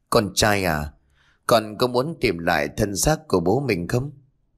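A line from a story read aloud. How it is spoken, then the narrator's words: Smiling. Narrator (Vietnamese): mỉm cười, rồi nói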